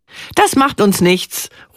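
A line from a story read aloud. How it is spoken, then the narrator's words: Called out. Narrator (German): ruft sie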